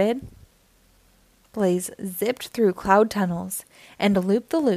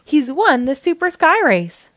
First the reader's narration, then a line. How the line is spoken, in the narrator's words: cried the announcer